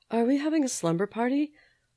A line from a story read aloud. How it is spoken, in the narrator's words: Miriam said drowsily